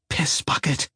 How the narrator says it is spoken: she hissed

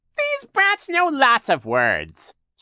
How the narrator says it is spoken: Shirley said in her ridiculously fake high voice

